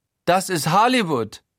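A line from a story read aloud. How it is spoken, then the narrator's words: Eccentric affected Styrian accent. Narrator (German): ruft Guido exzentrisch, mit langem A statt O und einem affektiert steirischen Schwarzenegger-Einschlag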